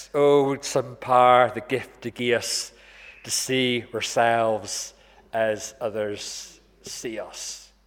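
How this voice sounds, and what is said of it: Rough put-on Scottish accent. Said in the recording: “I'm not trying my best Scottish accent today ... but roughly like this”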